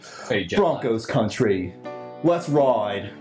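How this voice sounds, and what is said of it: Put-on British accent. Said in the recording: “I'm going to do an awful, awful British action. ... This British accent. ... That was pretty good, actually.”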